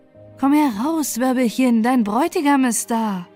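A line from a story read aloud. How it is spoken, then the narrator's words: Calling out. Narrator (German): rief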